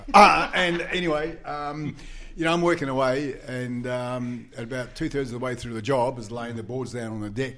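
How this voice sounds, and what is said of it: New Zealand accent. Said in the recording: “Kiwi accent can get mixed up with other words ... I'm a Kiwi”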